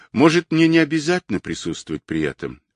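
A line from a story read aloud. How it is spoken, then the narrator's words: Timid question. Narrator (Russian): робко спросил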